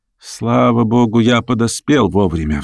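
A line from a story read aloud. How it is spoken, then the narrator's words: Relieved sigh. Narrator (Russian): вздохнул профессор с облегчением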